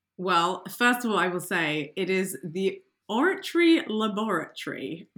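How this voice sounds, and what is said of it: English accent. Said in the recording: “You have to say it in an English accent”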